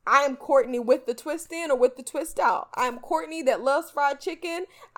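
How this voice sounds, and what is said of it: South Carolina Southern accent. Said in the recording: “I am ... that is from South Carolina and I have that South Carolina accent.”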